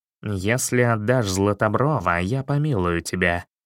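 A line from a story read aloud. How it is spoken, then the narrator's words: Plain. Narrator (Russian): сказал он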